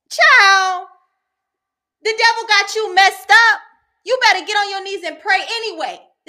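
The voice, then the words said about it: Yelling, loud impassioned preaching. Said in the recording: “sorry for yelling”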